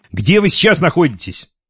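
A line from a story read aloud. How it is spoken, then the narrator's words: Irritated question. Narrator (Russian): раздраженно спросил Гуров, разозлившись на ненужную инициативу Родионова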